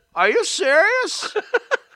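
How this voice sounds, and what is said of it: Imitates another person's voice. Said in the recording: “There's my imitation. ... A silly imitation ... It wasn't bad. You got the words right.”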